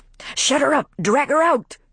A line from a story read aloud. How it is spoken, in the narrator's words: cried the white man